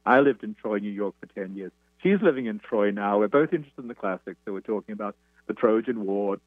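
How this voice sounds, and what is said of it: Anglo Australian accent. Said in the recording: “she, like me, is Australian with a rather Anglo Australian accent.”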